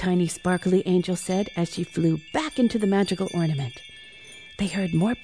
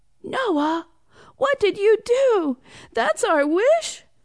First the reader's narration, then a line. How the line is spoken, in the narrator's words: cried Ian